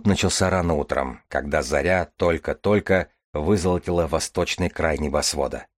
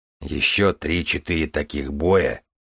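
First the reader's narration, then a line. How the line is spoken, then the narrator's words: Gloomy grumble. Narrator (Russian): невесело пробурчал Железовский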